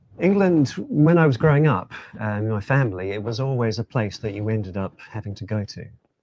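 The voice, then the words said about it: Speaks with a noticeable accent. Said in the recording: “you've got, obviously, you've got an accent there”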